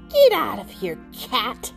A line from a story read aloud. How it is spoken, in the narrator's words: he spat